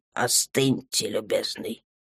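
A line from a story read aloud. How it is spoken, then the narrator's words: Cold command. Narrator (Russian): холодно приказал Рахард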